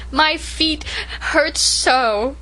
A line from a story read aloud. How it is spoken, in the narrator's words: sobbed Rilla